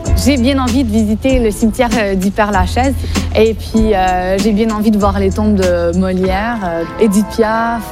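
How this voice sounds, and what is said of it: Quebecois French accent. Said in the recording (French): “je viens de Montréal ... la bonne réputation des Québécois ... dès qu'on entend mon accent”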